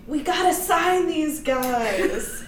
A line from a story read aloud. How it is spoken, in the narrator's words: he's shouting